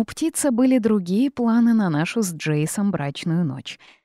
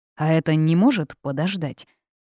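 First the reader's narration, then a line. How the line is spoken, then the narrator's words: Grumbled, reluctant. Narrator (Russian): проворчал Джейс, явно не желающий останавливаться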